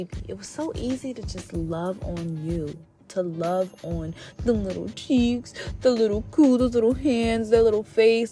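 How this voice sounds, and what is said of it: Baby voice. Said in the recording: “I'm talking in my baby voice now”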